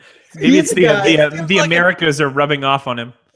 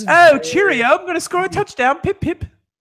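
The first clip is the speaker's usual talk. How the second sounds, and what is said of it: Put-on British accent. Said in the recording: “He does have a British accent”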